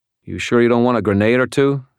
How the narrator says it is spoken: he asked

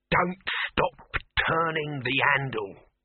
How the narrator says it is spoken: Dibbler saying, in a voice hissing like a thrown knife

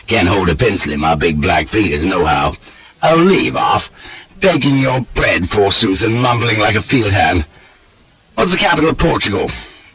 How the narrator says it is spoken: chuckles he

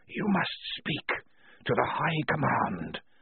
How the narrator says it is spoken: whispered the walls

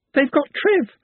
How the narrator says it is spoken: she sobbed

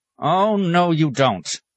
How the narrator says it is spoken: snapped

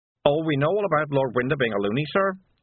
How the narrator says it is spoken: said Wiglet cheerfully

